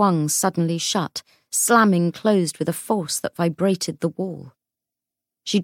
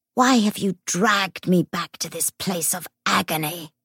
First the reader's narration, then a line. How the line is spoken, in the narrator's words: Garst hissed